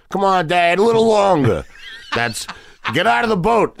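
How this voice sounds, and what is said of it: Heavy Queens accent, kid from Jaws. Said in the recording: “I used to have a very heavy accent. ... Like, I sounded like, remember the little kids in Jaws? ... that's what I sound like”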